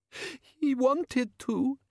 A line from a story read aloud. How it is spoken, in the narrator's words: sobbed